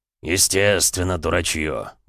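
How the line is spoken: Grumbling mutter. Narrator (Russian): буркнул Бронзовый

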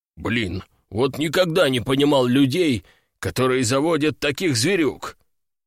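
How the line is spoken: Disgusted, through teeth. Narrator (Russian): Брезгливо процедил

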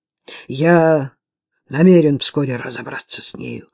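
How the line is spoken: Muttering. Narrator (Russian): пробормотал Ричард

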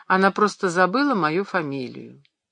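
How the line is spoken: Perfectly natural tone. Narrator (Russian): Эмма самым естественным тоном ответила

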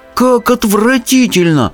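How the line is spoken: Involuntary exclamation. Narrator (Russian): воскликнул я невольно

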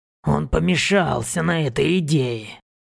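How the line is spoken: Creaky. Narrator (Russian): проскрипел Борг

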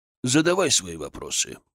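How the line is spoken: Old man grumbling. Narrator (Russian): проворчал седобородый старик

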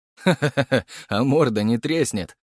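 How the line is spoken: Laughing. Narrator (Russian): рассмеялся Гаврилов

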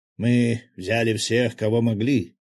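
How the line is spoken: Mildly irritated imitation. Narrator (Russian): подражая манере универсала, немного раздраженно произнес

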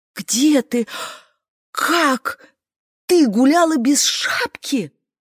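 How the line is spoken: Mother's whispered shout. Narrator (Russian): шепотом закричала мама

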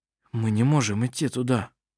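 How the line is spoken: Whispered. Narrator (Russian): сказал он шепотом

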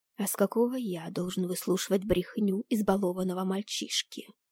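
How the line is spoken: Growl, losing self-control. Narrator (Russian): прорычал Луций, не в силах больше сдерживать самообладание

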